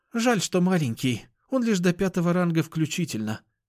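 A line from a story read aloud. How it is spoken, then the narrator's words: Sighing. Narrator (Russian): вздохнула Кошкина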